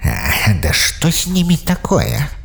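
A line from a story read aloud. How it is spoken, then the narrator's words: Irritated growl. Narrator (Russian): раздраженно прорычал Эмос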